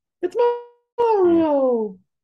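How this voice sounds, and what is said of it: Imitates Mario character voice. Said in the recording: “That's my Mario impression. They should hire you as Mario”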